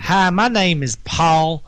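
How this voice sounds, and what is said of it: Put-on Southern American accent. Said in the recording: “read it in a southern accent... Sounds really good in a southern accent.”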